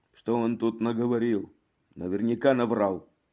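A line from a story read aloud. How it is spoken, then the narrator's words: Grumbling. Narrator (Russian): Рене проворчал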